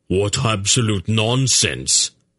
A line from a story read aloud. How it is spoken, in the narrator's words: Beric burst out angrily